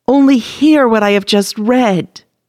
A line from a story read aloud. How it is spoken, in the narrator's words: cried the little boy